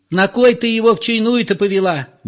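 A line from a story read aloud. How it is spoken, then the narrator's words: Shrill hysterical question. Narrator (Russian): визгливо спрашивала членораздельная Зоя, женщина вполне истеричная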